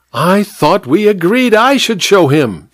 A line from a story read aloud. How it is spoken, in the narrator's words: squealed the vicar petulantly